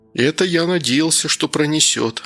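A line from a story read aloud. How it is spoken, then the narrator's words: Sigh. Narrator (Russian): вздохнул Данил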